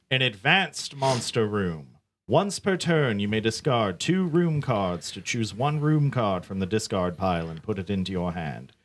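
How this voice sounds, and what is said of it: Theatrical villain character voice. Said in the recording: “This villain voice that you keep putting on is amazing.”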